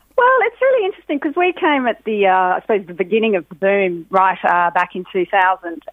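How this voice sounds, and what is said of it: Australian accent. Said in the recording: “accent hasn't moved a day... you've held yours”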